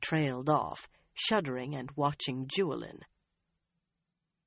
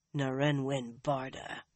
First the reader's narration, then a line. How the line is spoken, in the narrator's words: Nynaeve said grimly